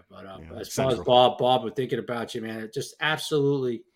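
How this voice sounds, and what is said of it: North Jersey accent. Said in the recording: “I know a lot of people with my accent. People think I live in North Jersey.”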